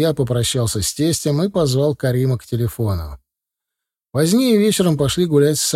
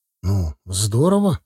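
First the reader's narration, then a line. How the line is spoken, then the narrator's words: Slightly confused. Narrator (Russian): ответил я слегка растерянно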